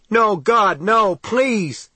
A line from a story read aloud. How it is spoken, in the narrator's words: he screamed